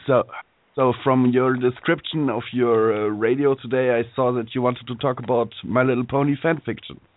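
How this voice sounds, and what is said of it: Slightly hoarse voice. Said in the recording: “I'm just a little hoarse”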